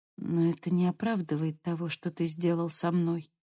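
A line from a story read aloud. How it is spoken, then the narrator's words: Muttered. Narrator (Russian): пробормотала она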